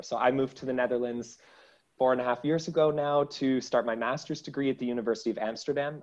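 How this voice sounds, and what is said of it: Canadian English accent. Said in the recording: “your Dutch accent, that's more Canadian ... more Canadian, correct”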